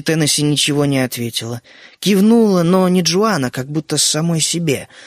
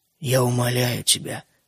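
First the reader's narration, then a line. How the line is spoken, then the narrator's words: Quiet. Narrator (Russian): тихо проговорила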